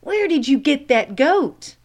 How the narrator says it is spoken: one of the policemen who was standing outside their station called out

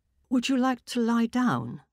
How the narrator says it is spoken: my mother asked timidly

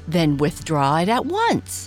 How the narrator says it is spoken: commanded sharply

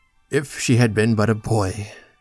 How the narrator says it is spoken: said to himself with a profound sigh

